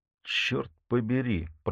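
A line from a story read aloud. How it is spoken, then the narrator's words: Muttered. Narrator (Russian): пробормотал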